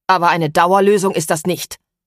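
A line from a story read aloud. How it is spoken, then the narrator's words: Blustering. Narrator (German): polterte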